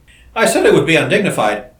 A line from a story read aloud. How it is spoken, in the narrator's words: chuckled Seaton, rather short of breath